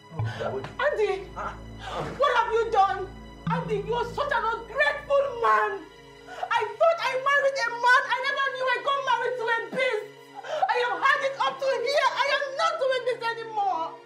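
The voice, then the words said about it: Angry shouting. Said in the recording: “Why are you shouting?”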